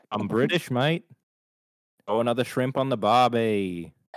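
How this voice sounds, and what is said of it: Put-on Australian accent. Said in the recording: “now that I just did Australian for that little bit”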